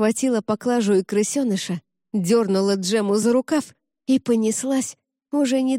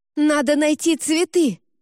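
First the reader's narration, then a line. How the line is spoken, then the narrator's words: Shouted while moving. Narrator (Russian): на ходу выкрикнула Джема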